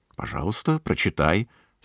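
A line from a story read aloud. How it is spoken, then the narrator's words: Plain. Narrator (Russian): сказала Елизавета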